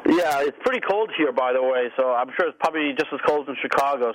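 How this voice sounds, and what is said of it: New York accent. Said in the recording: “I can tell from that accent you're a New Yorker”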